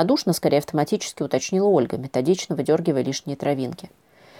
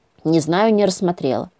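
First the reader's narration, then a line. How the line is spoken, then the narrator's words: Annoyed mutter. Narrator (Russian): буркнула с досадой Ангелина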